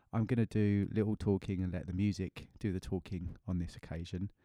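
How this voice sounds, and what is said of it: Voice affected by a cold. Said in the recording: “I have a bit of a cold this week, so excuse my voice.”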